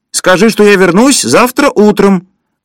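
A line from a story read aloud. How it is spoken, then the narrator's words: Shouting. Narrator (Russian): крикнул кто-то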